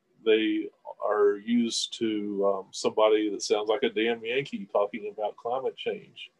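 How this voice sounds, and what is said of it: Kentucky Southern accent. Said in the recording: “Being a Kentuckian, at least my Kentucky accent sometimes helps”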